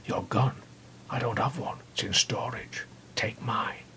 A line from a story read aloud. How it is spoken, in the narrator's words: Rose whispered